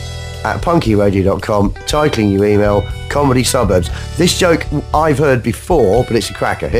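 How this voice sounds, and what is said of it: Usual voice. Nothing is said of it.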